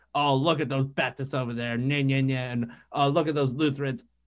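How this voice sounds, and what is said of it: Mocking nasty voice. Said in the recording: “I tried to make a nasty voice”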